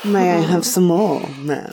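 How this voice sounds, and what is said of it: Posh accent. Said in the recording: “your posh accent”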